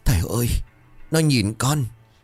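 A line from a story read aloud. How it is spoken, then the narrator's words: Breathless trembling child. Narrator (Vietnamese): Thằng bé bấy giờ thở ngắt ra, miệng run rẩy như đang nói với ai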